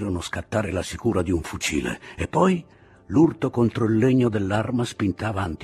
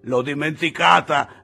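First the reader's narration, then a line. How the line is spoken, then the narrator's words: Man laughing in darkness. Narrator (Italian): disse al buio l'uomo ridendo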